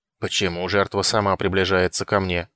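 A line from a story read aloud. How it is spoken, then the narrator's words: Old woman grumbling. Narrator (Russian): проворчала старуха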